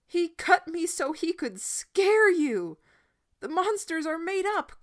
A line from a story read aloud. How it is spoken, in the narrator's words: Gordon cried out